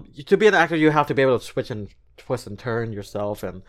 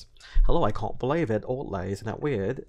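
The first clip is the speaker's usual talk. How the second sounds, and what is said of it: Put-on British accent, sounds Australian. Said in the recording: “like the British accent, I picked up on that in acting class ... That sounds more Australian”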